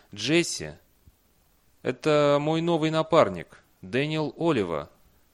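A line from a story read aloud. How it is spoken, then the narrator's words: Uncertain. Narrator (Russian): Бейли неуверенно произнес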